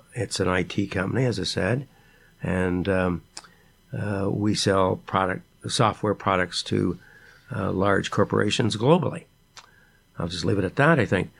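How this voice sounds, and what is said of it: Raspy older man's voice. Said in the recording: “my raspy voice ... I'm a little older”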